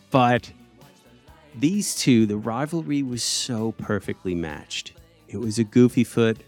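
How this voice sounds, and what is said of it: Usual voice. Nothing is said of it.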